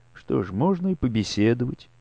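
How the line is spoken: Calm agreement. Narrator (Russian): спокойно согласилась она

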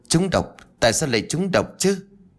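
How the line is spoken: Trembling. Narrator (Vietnamese): Chú Tú run rẩy

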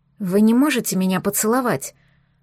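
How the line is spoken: Breathy whisper. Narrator (Russian): Выдохнула Вудварду Пассету в губы

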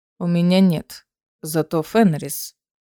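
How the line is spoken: Mumble. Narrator (Russian): пробормотал Горель

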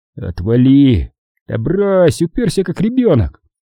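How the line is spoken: Laughing. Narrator (Russian): Дональд рассмеялся

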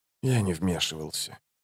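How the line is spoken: Quiet. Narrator (Russian): тихо проговорил

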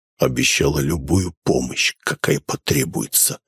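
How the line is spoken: Blissful exhale. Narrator (Russian): блаженно выдохнул он

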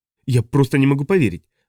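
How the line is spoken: Excited. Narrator (Russian): взволнованно заговорил Бернс

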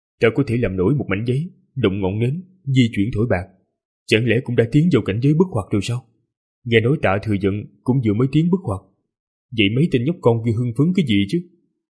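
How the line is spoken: Muttering after long silence. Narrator (Vietnamese): trầm mặc rất lâu rồi lẩm bẩm nói

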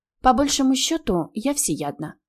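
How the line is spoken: Plain. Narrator (Russian): ответила я

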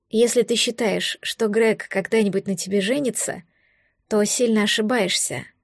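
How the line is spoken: Calm. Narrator (Russian): спокойно заметила я

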